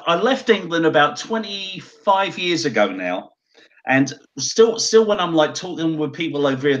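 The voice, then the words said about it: Texan twang in English accent. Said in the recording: “Texan twang ... Texas twang”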